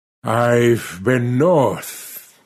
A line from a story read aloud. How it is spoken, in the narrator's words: he said, speaking slowly and painfully between puffs at his pipe